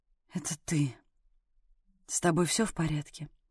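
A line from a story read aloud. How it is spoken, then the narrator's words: Quiet, relieved exhale. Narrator (Russian): Он вроде как выдохнул и тихо произнес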